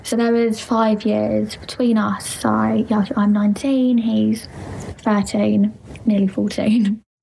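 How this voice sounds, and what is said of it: Thick accent. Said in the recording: “She's got a thick accent ... I was super distracted by the accent.”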